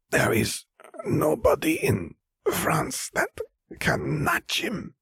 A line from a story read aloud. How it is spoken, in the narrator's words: Vera rasped